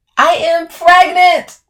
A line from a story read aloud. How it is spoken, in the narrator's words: I shout